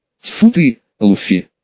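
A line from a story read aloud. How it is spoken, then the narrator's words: Relieved exhale. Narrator (Russian): С явным облегчением выдохнуло квадратное лицо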